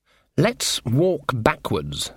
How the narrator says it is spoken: said Granny, slowly

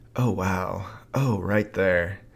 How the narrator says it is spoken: moaning gently a few times

